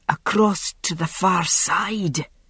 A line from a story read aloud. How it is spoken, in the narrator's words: said, gasping